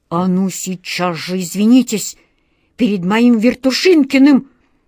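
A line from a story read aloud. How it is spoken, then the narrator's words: Menacing hiss. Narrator (Russian): угрожающе прошипел волшебник Алеша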